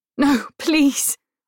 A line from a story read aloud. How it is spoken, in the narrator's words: say desperately